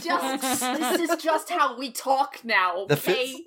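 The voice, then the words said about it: Philadelphia accent. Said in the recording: “acquired my accent ... Orcs are from Philadelphia ... The Philly accent”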